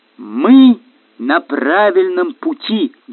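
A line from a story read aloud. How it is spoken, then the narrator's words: Loud, fighting fear. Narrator (Russian): громко сказал он, чтобы не бояться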